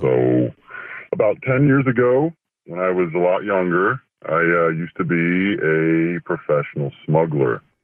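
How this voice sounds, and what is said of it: Low, electronically disguised voice. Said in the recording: “Do sound low. Even with the voice changer”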